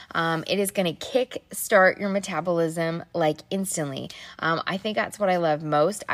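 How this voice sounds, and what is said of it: Scratchy voice. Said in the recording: “my voice is always so scratchy”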